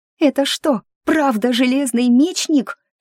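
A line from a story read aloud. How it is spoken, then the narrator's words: Shriek into ear. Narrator (Russian): провизжала она же мне в ухо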